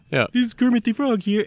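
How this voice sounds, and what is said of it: Kermit the Frog voice impression. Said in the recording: “You start out doing Kermit the Frog.”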